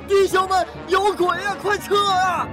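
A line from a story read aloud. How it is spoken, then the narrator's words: Desperate yell. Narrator (Chinese): 黑暗中，不知谁拼命地大喊了一声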